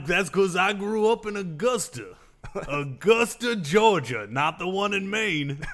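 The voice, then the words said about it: Very thick Georgia Southern accent. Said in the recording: “You have a very thick Georgian accent.”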